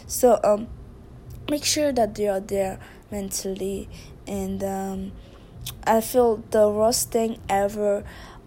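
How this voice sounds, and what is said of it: Noticeable accent. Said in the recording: “I, say choice and trust they sound the same way. That's very interesting. My accent is very interesting”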